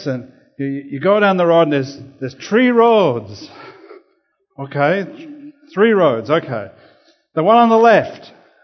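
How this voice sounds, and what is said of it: Put-on Irish accent. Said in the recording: “apologies for anyone from Irish background with the Irish accent that I will attempt”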